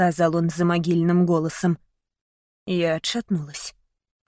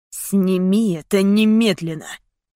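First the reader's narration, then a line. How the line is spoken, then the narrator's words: Through gritted teeth. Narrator (Russian): процедил он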